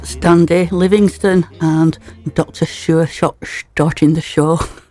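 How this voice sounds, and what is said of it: James Bond impression. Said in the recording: “That was me James Bond impersonation”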